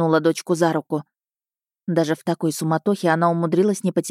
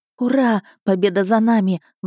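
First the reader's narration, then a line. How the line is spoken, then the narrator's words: Quiet exclamation. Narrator (Russian): воскликнула, но негромко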